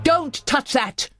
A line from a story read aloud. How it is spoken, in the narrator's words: he bellowed